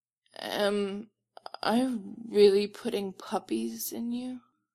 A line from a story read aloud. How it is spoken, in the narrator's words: Stiles asks